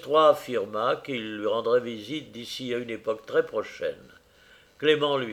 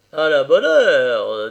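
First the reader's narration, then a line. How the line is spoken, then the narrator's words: Harsh. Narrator (French): dit-il durement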